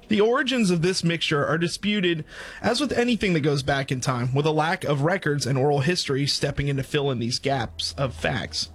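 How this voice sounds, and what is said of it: Southern American accent. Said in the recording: “I'm going to stick with my Southern accent.”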